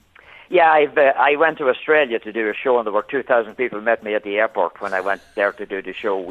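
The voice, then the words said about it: Irish accent. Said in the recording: “I'm a New Yorker with an Irish accent”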